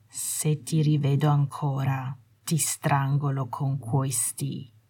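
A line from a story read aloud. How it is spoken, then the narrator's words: Deadly calm voice. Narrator (Italian): disse Malfoy con una voce mortalmente calma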